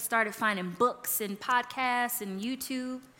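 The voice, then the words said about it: Briefly country-sounding accent. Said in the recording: “sounded kind of country for a second... acting accent”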